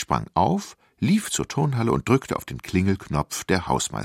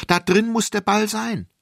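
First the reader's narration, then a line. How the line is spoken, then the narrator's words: Called out. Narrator (German): rief ich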